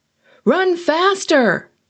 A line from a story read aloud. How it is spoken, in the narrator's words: I shouted over my shoulder